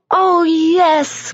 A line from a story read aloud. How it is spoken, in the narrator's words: cried the kids